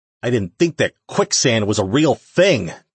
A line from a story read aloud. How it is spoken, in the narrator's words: Jake growled